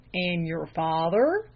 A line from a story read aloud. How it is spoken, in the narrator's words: drawled the lay reader